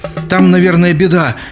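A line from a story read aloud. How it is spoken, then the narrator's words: Frightened. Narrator (Russian): испуганно добавил Оги Обамба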